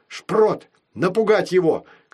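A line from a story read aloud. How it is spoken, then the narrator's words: Shouting. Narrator (Russian): крикнула мама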